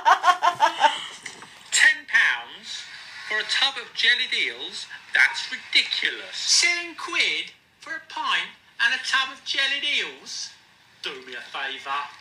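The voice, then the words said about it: Cockney accent. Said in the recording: “He's got like a proper Cockney accent”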